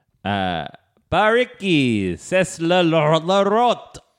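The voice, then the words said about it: French accent. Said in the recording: “That is a perfect French accent”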